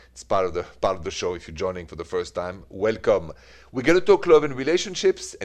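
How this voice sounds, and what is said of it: French accent, from Paris. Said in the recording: “It's ... with my French accent. That never changes... this accent, it is straight from Paris... the accent, though, doesn't seem to fade away”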